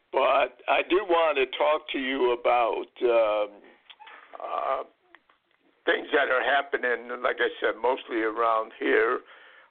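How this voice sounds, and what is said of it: Strained, tiring voice. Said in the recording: “my voice is starting to give out a little”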